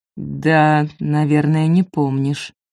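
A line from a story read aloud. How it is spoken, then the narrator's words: Slow. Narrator (Russian): медленно сказал он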